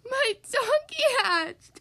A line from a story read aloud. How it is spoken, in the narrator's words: cried Bear